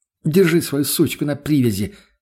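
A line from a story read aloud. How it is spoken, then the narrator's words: Angry hiss in face. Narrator (Russian): злобно выдохнула мне в лицо Тоня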